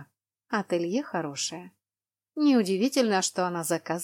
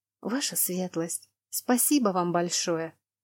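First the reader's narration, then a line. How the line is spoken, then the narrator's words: Mumbled. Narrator (Russian): пробормотала Лана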